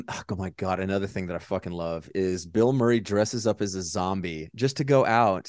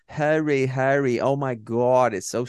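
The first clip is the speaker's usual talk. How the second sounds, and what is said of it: New York accent. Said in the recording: “this just like New York accent here”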